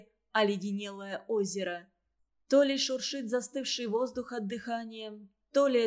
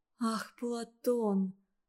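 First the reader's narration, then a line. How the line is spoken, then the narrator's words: Sad repetition. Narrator (Russian): повторила Варя печально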